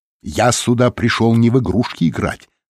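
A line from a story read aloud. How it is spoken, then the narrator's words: Plain. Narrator (Russian): сказал Реми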